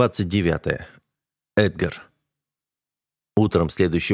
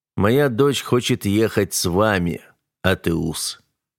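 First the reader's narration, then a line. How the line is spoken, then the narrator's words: Plain. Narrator (Russian): сказал он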